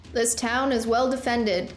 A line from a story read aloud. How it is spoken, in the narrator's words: Killian shouted to the creatures